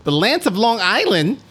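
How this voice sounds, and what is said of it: Put-on accent. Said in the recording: “Wow, that was a really good accent.”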